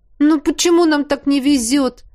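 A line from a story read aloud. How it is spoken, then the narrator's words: Exclaimed. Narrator (Russian): воскликнул кто-то из наших рядов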